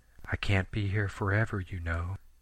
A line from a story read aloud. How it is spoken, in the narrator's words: Sammy say in her soft, low voice